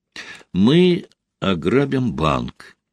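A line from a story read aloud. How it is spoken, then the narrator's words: Quiet, solemn. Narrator (Russian): тихо, но торжественно произнес Константин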